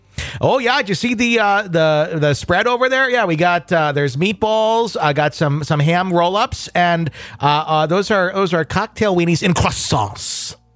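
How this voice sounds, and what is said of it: Put-on Wisconsin accent. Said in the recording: “it's more amusing when it's coming from a Wisconsin accent”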